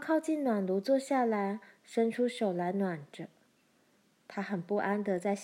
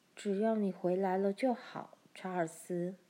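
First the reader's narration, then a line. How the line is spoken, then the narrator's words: Murmuring. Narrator (Chinese): 她喃喃说道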